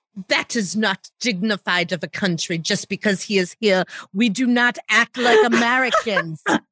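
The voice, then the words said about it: Put-on English accent. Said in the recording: “Your English accent was the best yet. It was the best I've seen you do.”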